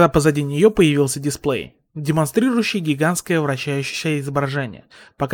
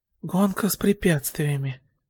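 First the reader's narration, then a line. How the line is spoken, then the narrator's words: Muttered. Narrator (Russian): пробормотал Изуку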